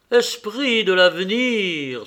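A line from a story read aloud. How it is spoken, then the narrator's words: Exclaimed. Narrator (French): s'écria-t-il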